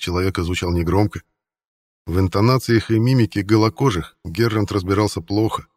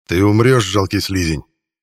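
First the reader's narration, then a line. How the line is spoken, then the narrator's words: Growling threat. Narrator (Russian): прорычал Геррант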